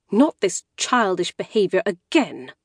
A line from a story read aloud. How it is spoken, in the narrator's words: said through her teeth, which was still arranged in a polite smile